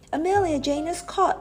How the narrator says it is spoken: cried

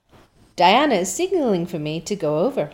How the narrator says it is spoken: laughed Anne

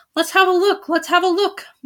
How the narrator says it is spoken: they cried

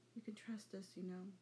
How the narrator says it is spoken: After a moment, she said softly

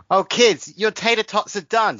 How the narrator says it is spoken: shouted Gamer Mum

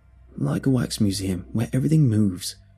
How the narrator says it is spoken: another said

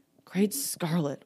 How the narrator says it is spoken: White Dragon muttered

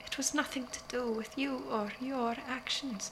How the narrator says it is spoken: Leander said gently, but in a way that was not entirely honest

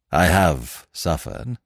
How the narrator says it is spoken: said Smith gravely

